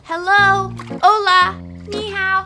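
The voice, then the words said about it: Yelling loudly. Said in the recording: “Why are you yelling”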